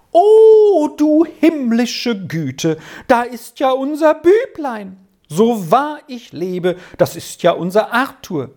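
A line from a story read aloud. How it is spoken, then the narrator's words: Excited youthful cry. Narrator (German): schrie sie auf, als wäre sie mit einem Male jung geworden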